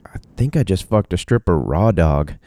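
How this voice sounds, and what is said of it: Slight put-on Texan accent. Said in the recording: “He was from Texas. That's hence the mini accent there.”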